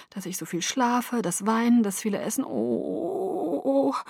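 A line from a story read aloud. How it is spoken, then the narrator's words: Toneless murmur to oneself. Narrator (German): murmelte ich tonlos vor mich hin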